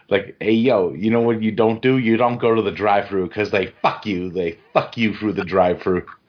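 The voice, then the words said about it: Put-on upstate New York accent. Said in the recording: “that upstate New York accent.”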